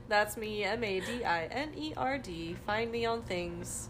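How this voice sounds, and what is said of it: Secretary-like voice. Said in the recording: “You sound like a secretary”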